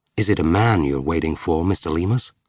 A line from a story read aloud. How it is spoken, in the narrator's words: asked the American